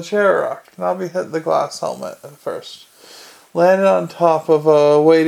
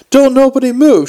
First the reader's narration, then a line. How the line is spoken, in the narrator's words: she yelled